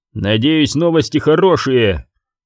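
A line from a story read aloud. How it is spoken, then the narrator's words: Growl. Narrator (Russian): прорычал он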